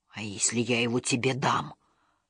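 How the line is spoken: Whisper. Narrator (Russian): прошептал вождь истериков

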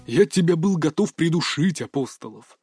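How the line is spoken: Hissing. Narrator (Russian): прошипел Чехов

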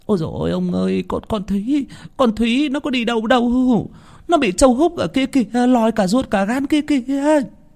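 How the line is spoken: Trembling panicked stammer. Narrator (Vietnamese): Bà Tránh run rẩy, miệng lắp bắp

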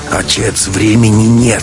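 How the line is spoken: Near growl. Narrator (Russian): Матвей почти рычал

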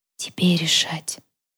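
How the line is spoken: Whispered. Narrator (Russian): прошептала рыжая

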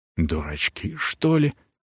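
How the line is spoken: Disinterested mutter. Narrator (Russian): пробормотал себе под нос комитетский, теряя интерес к теме

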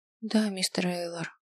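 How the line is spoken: Muffled answer. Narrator (Russian): глухо ответил

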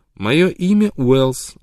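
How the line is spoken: Plain. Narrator (Russian): ответила она

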